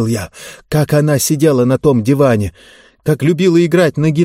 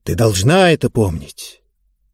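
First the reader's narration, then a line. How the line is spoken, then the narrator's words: Sung barely audibly. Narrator (Russian): я пропел еле слышно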